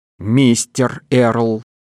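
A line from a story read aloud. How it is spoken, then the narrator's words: Stern correction. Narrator (Russian): строго поправила Блейскейл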